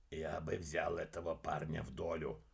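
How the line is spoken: Whisper. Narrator (Russian): прошептал Грег

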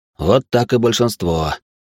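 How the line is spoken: Snorting. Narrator (Russian): хмыкнул он

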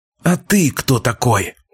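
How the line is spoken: Hissed, then fell silent. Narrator (Russian): зашипел, но затих

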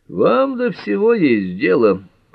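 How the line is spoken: Grumbling. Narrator (Russian): проворчал Ллойд

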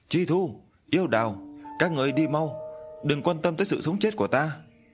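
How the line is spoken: Loud shout. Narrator (Vietnamese): Hạ Vi Linh hét lớn

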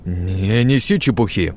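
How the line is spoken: Trembling shout. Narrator (Russian): задрожав, прокричал

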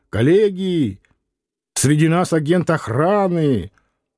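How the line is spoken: Boy shouting. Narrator (Russian): мальчик кричал

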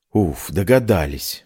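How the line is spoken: Relieved exhale. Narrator (Russian): выдохнула я

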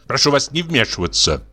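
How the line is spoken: Rude, curt. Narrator (Russian): грубо сказал ему Чубиков

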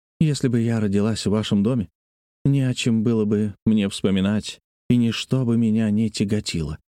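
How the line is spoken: Plain. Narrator (Russian): ответила она

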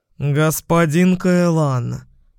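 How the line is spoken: Growled. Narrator (Russian): прорычал Рагнар

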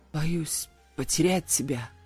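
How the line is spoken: Close intimate whisper. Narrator (Russian): прошептал, обжигая дыханием мои губы

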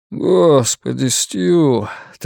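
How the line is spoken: Anguished, weary exhale. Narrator (Russian): тоскливо выдохнул он

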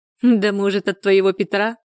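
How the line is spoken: Envious milkmaid's giggle. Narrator (Russian): хихикнула доярка Антонина, всегда завидовавшая нехлопотной должности Надежды и тому, что она всегда ходит с прической и крашенными ногтями

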